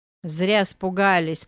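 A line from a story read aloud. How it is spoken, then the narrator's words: Sudden deep bass. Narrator (Russian): пробасил неожиданно кто-то за его спиной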